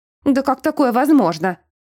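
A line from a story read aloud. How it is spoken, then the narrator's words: Frantic yelling. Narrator (Russian): Заорала она, как полоумная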